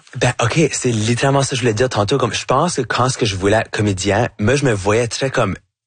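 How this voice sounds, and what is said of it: Acadian French accent. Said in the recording (French): “je me sens super acadien, que c'est pas quelque chose que je peux cacher... votre accent acadien... J'ai un accent qui va jamais être neutre... avec mon chiac”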